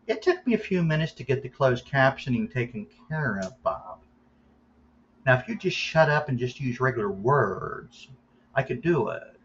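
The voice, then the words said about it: Imitates another person's voice. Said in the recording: “That was my impression of Rick Sawyer.”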